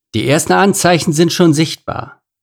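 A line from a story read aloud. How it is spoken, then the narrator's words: Plain. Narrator (German): sagte Leon gerade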